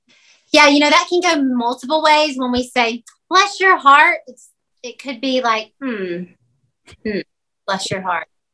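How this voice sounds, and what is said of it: Southern American accent. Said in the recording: “those Southerners ... I love your accent.”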